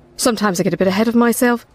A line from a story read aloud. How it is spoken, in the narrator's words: said